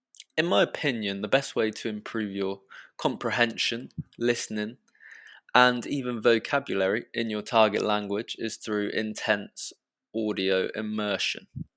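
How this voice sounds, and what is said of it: British English accent. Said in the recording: “as I am from England and not the USA ... my British accent”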